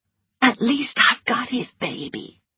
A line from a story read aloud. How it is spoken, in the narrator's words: whispered Melanie